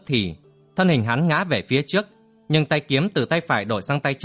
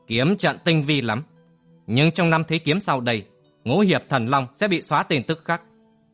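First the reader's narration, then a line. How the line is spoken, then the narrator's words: Arrogant, emphatic, word by word. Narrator (Vietnamese): cất cao giọng cười ngạo mạn, rồi gằn từng tiếng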